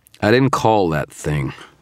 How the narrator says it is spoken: said, my voice slurred with fatigue

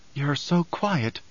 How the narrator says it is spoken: Chani whispered

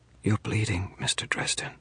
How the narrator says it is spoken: she whispered

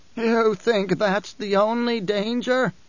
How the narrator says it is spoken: the Reverend Mother demanded, voice wheezing

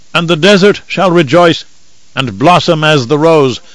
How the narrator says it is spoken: one old man cried out

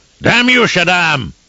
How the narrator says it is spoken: He bellowed up at the sky

